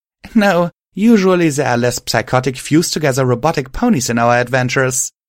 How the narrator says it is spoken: I said, chuckling

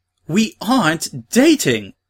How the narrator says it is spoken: She exclaimed

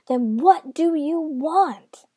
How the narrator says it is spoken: cried the good knight

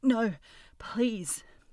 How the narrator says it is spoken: he whimpered

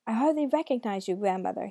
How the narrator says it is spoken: he shouted

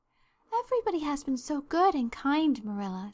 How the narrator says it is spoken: sighed Anne happily

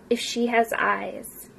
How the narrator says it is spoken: Val murmured to himself

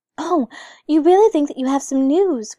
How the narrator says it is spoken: cried the little girl

